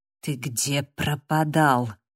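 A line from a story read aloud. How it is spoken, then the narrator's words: Hissing. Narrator (Russian): прошипел Дэниел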